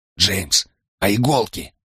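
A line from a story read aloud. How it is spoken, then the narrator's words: Quiet question. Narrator (Russian): тихо спросил Брайан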